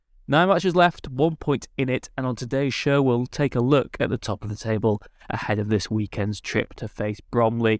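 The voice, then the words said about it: Congested, sniffly voice from a cold. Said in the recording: “As you can probably tell, I've got a bit of a cold. ... a few sniffles ... you're all sniffly and full of cold”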